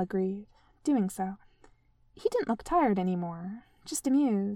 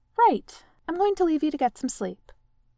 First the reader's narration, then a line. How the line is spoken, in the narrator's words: she said firmly